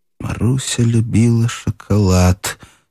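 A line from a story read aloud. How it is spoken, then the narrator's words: Through gritted teeth. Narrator (Russian): сквозь зубы повторила Даша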